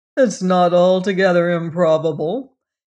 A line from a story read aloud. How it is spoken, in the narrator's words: laughed